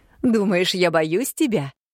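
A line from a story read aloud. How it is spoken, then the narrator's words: Laughing in someone's face. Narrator (Russian): Засмеялась она мне в лицо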